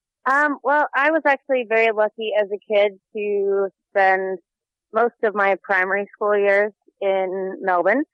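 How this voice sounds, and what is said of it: American accent. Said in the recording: “as everyone would hear by the accent in your voice, you're not an Aussie, you're an American”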